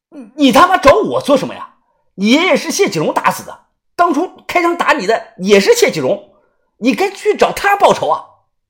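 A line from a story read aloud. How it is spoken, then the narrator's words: Loud shouting. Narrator (Chinese): 大声的喊道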